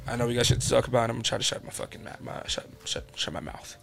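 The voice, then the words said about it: New York accent. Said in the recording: “my apologies for the accent ... he's from New York, guy.”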